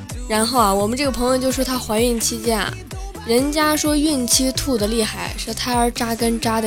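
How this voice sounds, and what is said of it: Usual voice. Nothing is said of it.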